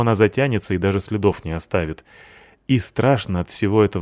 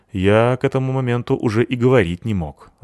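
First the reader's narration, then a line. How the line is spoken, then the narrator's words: Sighed. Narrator (Russian): вздохнул Сэмми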